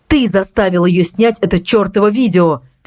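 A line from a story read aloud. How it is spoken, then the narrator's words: Angry exclamation. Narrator (Russian): в сердцах воскликнул Зимний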